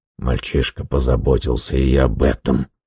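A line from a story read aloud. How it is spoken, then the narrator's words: Grumbling. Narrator (Russian): буркнул Гаррет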